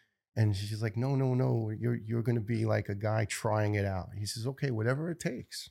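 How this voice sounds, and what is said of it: Usual voice. Nothing is said of it.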